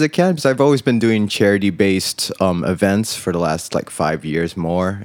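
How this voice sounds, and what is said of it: American international school accent. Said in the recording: “a classic international school accent ... that American accent”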